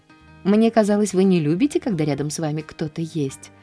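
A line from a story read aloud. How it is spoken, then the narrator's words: Plain. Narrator (Russian): ответила она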